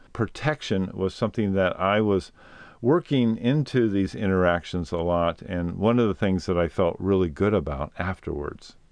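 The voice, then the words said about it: Slightly off, funky-sounding voice. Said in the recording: “my voice is a little funky”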